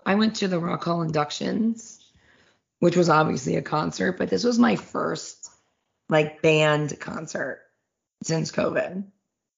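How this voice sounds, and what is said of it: Hoarse, worn-out voice. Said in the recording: “my voice is so toast”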